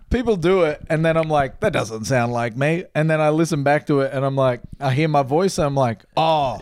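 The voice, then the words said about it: Strong Australian accent. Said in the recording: “you sound Australian as fuck... super Australian... Super duper Australian”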